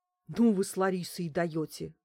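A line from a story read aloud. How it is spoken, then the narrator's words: Breathed out. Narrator (Russian): выдохнул Макс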